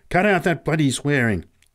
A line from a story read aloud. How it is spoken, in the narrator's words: snapped Pat angrily